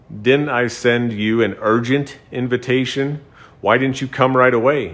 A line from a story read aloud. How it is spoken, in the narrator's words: Balak asked Balaam